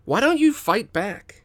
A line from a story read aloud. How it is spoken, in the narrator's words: Tak snaps